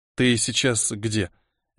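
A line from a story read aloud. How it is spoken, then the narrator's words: Barely squeezed out. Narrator (Russian): еле выдавил я из себя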